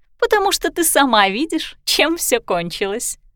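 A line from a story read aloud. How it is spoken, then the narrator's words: Giggling. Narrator (Russian): хихикнула Дина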